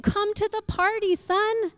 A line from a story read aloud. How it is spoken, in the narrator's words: pleaded with him